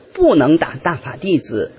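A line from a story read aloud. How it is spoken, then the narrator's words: Loud. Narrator (Chinese): 我就大声说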